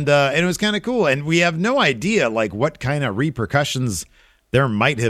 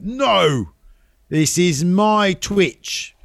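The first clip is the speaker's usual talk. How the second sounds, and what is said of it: Put-on British accent. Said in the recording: “Got to do the British accent.”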